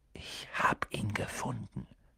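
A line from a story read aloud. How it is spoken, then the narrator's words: Whisper. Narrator (German): flüsterte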